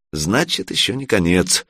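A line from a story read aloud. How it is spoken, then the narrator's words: Sighing. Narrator (Russian): вздохнула Алена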